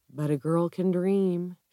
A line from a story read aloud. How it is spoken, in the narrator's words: she says softly